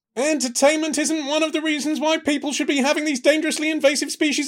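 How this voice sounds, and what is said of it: Murray Walker commentator impression. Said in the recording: “in the style of dearly departed F1 commentator Murray Walker ... my impression”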